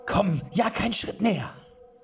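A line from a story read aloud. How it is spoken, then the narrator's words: Shout through a cave. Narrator (German): schrie durch die Höhle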